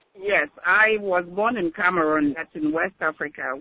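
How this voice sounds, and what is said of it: Slight foreign accent. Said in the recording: “I, and I uh, detect a little accent.”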